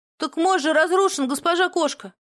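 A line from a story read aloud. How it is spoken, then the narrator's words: Thin shout of a boy. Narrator (Russian): тоненько крикнул из толпы мальчуган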